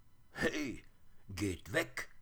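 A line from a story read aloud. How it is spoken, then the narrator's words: Little bear calling. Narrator (German): rief der kleine Bär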